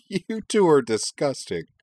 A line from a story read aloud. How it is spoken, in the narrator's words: Kate laughed